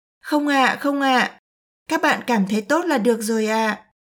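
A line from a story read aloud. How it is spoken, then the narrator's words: Smiling. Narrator (Vietnamese): Tiểu Nha mỉm cười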